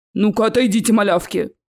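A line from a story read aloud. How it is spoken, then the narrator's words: Troll's gruff bark. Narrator (Russian): Рявкнул тролль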